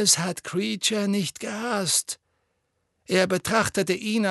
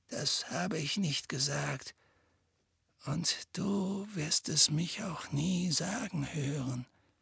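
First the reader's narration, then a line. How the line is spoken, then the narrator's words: Quiet reply. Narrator (German): erwiderte Dumbledore leise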